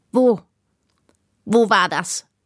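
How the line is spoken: Sharp question. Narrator (German): fragte der Spitzbart scharf

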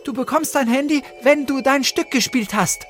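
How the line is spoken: Called out. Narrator (German): rief Luna und suchte hektisch weiter

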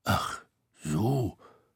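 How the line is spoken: Grumbling. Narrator (German): brummte Tete

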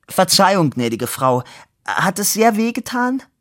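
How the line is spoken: Smiling call. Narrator (German): Er lächelte ihr zu und rief

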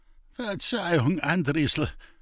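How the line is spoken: Humiliated groan. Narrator (German): stöhnte der gedemütigte Großbauer

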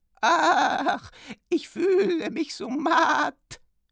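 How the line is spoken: Whining. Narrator (German): jammerte sie

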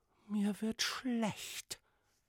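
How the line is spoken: Whispered. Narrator (German): wisperte die Prinzessin

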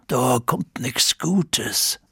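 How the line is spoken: Murmured. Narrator (German): murmelte er

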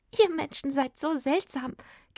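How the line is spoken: Fairy giggling. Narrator (German): kicherte die Fee

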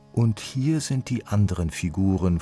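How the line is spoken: Calm continuation. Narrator (German): fuhr Sisa ruhig fort

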